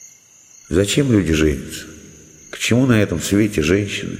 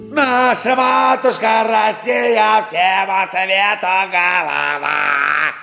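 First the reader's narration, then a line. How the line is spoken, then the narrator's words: Wild singing, choking off. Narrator (Russian): запел вдруг диким голосом Кирюха, поперхнулся и умолк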